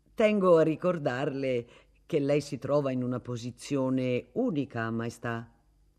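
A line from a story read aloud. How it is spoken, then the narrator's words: Cordial relaxed tone. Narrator (Italian): disse con un tono cordiale e rilassato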